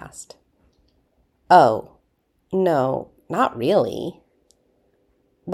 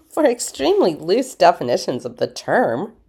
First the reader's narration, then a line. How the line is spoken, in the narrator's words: Rodney scoffed